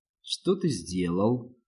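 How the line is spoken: Soft question. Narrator (Russian): мягко спросил Руис

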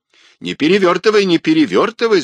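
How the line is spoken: Shout. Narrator (Russian): закричал он

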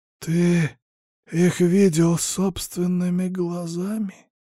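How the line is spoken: Near moan. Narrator (Russian): Почти простонал лжелитератор

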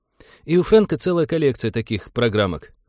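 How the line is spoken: Sighing. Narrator (Russian): вздохнул Винни

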